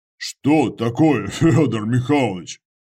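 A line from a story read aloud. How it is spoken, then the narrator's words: Chuckling. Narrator (Russian): Отец Андрей хохотнул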